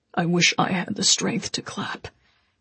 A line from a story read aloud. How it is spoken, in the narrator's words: Constantine said faintly